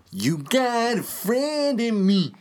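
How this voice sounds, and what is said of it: Imitates another person's singing voice. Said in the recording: “I Have a Great Randy Newman Impression.”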